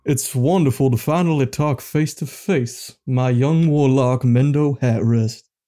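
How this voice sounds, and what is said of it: Altered put-on southern accent. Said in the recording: “Your southern accent got a little bit different.”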